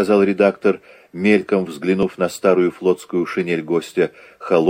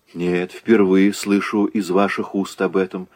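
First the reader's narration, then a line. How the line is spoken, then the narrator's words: Calm reply. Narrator (Russian): ответил Загоскин, чувствуя, что первая робость его прошла, и он может разговаривать с этим человеком спокойно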